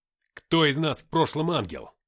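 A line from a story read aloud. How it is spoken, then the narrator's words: Harsh bark. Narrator (Russian): рявкнул я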